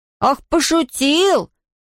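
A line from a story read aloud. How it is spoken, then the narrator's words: Angry shout. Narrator (Russian): сердито выкрикнул Том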